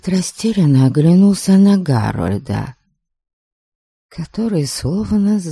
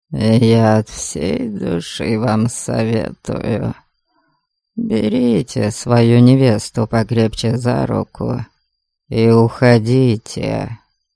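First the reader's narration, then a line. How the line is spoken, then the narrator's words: Serious, quiet. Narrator (Russian): очень серьезно и тихо сказал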